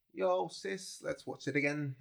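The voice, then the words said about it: Unclear put-on accent. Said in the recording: “I don't know what accent that was.”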